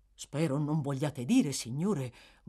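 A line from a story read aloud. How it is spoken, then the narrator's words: Butler's trembling murmur. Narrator (Italian): mormorò il maggiordomo tremando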